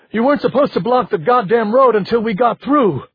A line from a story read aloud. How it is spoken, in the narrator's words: he shouted